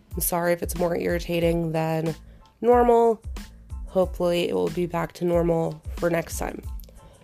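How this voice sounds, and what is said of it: Sick, congested voice. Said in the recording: “I'm still sick ... You can probably still hear it in my voice.”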